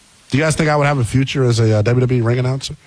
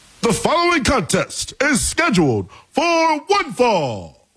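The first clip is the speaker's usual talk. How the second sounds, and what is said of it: Bad Tony Chimmel ring announcer impression. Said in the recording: “that was kind of like Howard Finkel-y. But that was a bad Tony Chimmel impersonation.”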